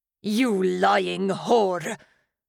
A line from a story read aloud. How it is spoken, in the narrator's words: He spat